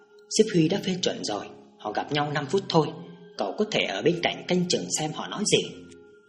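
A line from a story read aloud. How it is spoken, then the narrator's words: Quiet low voice. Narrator (Vietnamese): Một đồng chí cảnh sát khác nhỏ giọng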